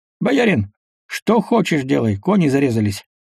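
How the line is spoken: Cheerful coachman. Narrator (Russian): весело сказал ямщик

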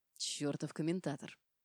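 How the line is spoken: Hissed through teeth. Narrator (Russian): прошипел сквозь зубы Дима

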